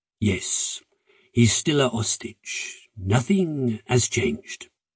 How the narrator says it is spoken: Philippe nodded, then said in a thick voice

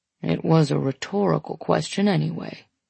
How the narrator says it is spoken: he mumbles

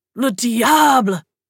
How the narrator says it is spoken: Zed gasped

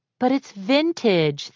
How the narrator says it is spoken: the girl had wailed

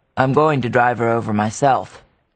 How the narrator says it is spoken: he repeated curtly

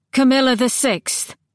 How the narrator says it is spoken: Cam called out

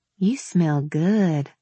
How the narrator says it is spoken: I murmured

